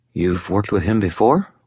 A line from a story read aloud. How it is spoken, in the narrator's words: Molly asked quietly